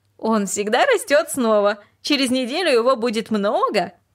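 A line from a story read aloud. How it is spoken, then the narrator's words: Laughing. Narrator (Russian): она только рассмеялась и сказала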